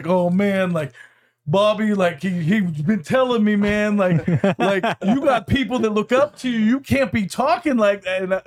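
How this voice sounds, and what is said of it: Imitates another person's voice. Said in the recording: “Pretty good Edwin impression,”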